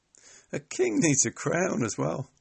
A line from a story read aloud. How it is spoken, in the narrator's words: laughed one of the soldiers